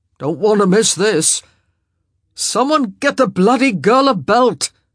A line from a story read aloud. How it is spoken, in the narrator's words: Benedict yelled grumpily